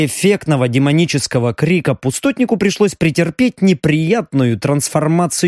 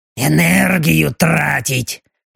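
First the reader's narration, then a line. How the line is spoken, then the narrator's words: Displeased demonic grumble. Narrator (Russian): недовольно заворчал демон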